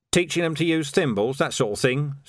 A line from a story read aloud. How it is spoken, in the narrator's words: said Vimes